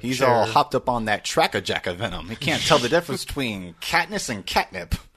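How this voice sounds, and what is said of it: Old-timey transatlantic radio announcer voice. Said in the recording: “Why do you always sound like you're ... old-timey ... 1930s radio announcer. ... I love the transatlantic accent.”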